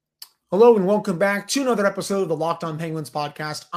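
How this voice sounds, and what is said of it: Slightly odd, impaired speech. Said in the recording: “my voice is a little weird ... it is affecting my ability to speak a little bit ... my voice is a little weird”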